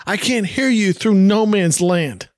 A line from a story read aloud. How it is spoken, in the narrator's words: Peter yells back